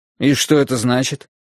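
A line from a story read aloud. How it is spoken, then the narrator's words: Scoffing snort. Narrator (Russian): Он фыркнул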